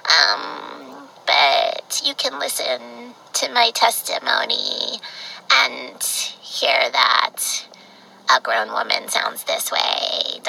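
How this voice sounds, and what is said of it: Baby-like voice with vocal fry. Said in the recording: “I just have this kind of a voice, uh, like a baby ... I speak with vocal fry.”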